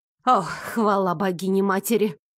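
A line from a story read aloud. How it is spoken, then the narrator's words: Noisy relieved sigh. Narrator (Russian): Шумно вздохнула служанка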